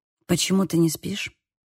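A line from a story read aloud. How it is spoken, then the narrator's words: Quiet question. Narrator (Russian): спросил тихо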